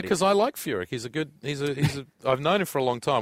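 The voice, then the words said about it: Australian accent. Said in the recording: “The Aussie accent's pretty ... distinct”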